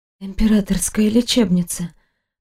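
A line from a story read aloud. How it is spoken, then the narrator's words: Dry-mouthed weak whisper. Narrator (Russian): прошептала, едва ворочая сухим языком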